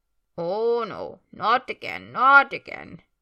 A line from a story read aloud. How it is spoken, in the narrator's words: comes the muttering voice of Creature as he wheezes and creaks